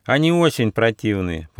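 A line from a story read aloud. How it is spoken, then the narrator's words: Little mouse grumbling. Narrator (Russian): проворчал мышонок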